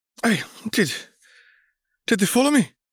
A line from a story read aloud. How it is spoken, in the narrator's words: cried